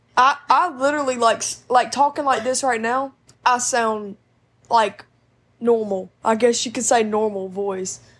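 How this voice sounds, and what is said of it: Southern twang accent. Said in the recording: “Is that Southern? ... That's Southern twang. ... you were so Southern. Your accent”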